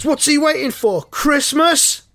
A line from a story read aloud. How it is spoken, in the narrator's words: One of the fans shouts